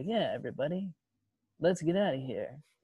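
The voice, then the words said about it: Bad nasal Billy Dee Williams Lando impression. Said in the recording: “I don't know if that's a good Lando impression or not ... What a great in its terribleness, Billy Dee Williams and Orlando impersonation ... it was great in how bad it was ... It sounds more nasally when I try it”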